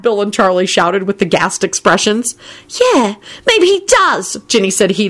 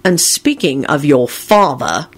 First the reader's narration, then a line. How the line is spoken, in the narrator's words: announced coldly